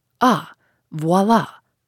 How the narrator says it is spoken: cried the magistrate, shaken in spite of himself

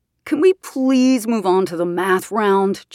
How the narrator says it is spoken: JP whined

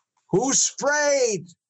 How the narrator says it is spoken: scream

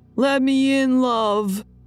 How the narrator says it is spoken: yelling

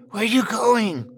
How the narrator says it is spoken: I hissed

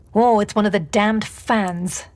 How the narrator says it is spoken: James spat out

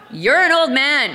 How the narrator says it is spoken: I yelled

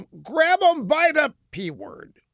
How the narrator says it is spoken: Burke, who shouted at them

